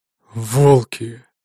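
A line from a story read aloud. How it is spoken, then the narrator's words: Hateful exhale. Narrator (Russian): С явно выраженной ненавистью в голосе выдохнул он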